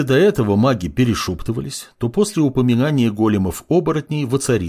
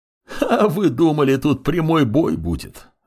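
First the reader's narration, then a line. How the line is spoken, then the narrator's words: Laughing undead voice. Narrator (Russian): рассмеялся лич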